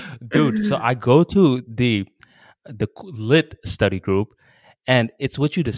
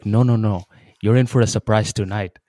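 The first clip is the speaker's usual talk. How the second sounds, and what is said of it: Put-on Indian accent. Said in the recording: “Indian accent”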